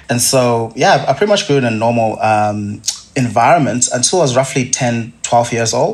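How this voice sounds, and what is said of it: Zimbabwean accent. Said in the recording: “As you can probably tell from my accent, I didn't grow up in Australia. Um, I grew up in, in Zimbabwe”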